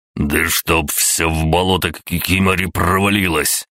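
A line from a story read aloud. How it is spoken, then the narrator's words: Growled. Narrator (Russian): прорычал Виктор Викторович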